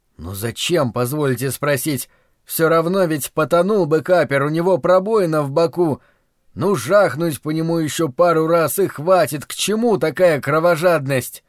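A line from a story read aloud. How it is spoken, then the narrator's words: Fanatic yelling. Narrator (Russian): этот фанатик заорал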